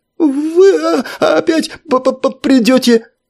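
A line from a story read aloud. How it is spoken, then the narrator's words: Stammering. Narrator (Russian): Ответил нотариус, вновь начав заикаться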